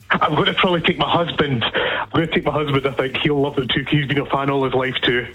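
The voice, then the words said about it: Scottish accent. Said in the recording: “I just detect a Scottish accent”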